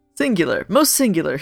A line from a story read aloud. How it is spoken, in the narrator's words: he murmured